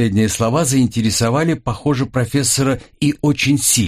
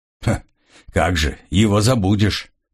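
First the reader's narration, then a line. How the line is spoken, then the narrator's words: Grumbling. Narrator (Russian): проворчал Грегор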